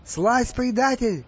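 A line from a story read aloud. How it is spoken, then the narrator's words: Shout. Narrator (Russian): крикнул он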